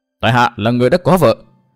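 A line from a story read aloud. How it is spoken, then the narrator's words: Raised voice. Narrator (Vietnamese): Tư Mã Minh cao giọng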